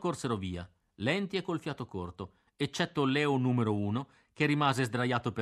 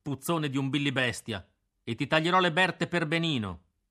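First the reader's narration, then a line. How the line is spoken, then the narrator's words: Angry shout. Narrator (Italian): gridai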